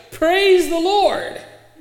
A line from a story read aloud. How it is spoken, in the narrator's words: the visitor would shout